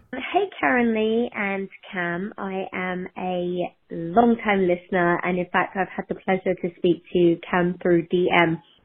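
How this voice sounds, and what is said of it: Cute British accent. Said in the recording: “the cutest little British accent I've ever heard”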